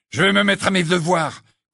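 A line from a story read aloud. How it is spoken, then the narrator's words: Furious interruption. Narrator (French): coupa Ron d'un ton furieux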